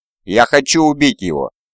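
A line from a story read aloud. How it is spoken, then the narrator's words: Furious. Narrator (Russian): зло произнес он, охваченный безмерным гневом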